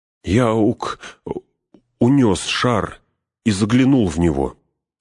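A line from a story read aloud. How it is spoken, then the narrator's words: Halting, stumbling speech. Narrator (Russian): запинаясь, проговорил Пин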